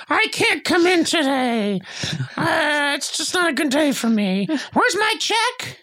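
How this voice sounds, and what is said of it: Imitates another person's voice. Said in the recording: “That's my Sona impression... It's good.”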